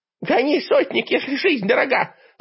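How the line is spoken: Jolted yelling old witch. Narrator (Russian): подпрыгивая вместе с телегой на ухабах, орала яга

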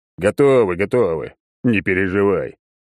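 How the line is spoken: Deep bass voice. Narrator (Russian): пробасил Черномор

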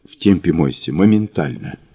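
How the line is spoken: Curt whisper. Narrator (Russian): он шепотом бросил

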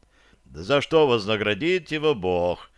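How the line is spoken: Mocking laughter. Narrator (Russian): захохотал темный

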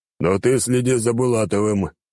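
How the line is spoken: Deep bass voice. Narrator (Russian): пробасил император

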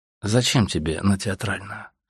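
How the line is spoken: Calm repeated question. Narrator (Russian): спросил он еще раз спокойно

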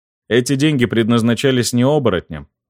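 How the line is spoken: Wry snort. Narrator (Russian): хмыкнул

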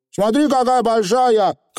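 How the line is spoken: Excited shout. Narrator (Russian): крикнул он, едва завидев сестру

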